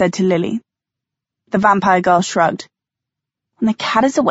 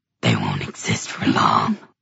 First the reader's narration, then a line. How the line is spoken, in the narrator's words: hissed the Dantalian demon